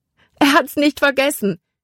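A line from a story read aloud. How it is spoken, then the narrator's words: Calling out. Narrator (German): rief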